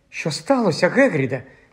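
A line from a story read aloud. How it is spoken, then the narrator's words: Frightened question. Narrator (Ukrainian): злякано спитала Герміона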